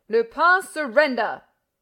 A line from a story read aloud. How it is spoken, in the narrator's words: roared Ganimard